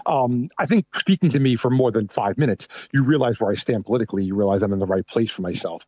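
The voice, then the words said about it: Thick New York accent. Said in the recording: “I have a very thick New York accent.”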